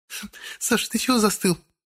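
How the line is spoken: Laughing. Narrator (Russian): рассмеялась Светка

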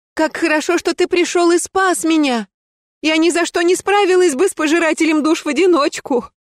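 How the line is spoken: Feigned sobbing. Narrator (Russian): Я изобразила горестное рыдание

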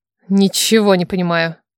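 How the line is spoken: Stunned mutter. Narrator (Russian): Ошарашенно пробормотал справа от меня муж-жених

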